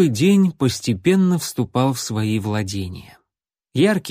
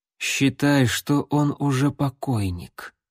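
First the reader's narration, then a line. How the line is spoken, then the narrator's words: Quiet, northern accent. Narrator (Russian): северным акцентом тихо изрек Грок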